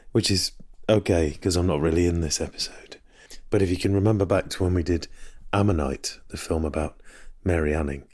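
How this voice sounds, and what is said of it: Hoarse, strained voice. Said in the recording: “as you can probably hear, I've somewhat lost my voice”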